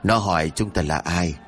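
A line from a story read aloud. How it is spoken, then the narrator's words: Soft laugh, reply. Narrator (Vietnamese): Tên kia khẽ cười rồi đáp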